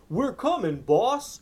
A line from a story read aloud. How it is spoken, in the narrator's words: Max's henchmen were clomping down the underground hallway, yelling